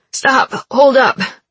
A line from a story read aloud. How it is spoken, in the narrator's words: Gina yelled, her voice hoarse